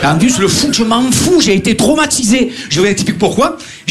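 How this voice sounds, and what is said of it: Marseille French accent. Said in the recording (French): “on entend mon accent à chaque fois ... Marseillais”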